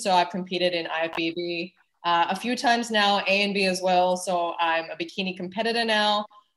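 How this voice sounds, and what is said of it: Mixed Canadian American Australian accent. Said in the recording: “the accent is a slight cross between Canadian, American, Australian”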